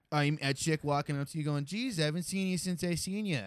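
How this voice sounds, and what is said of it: Put-on thick South Boston accent. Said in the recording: “a woman with like a thick Southie accent”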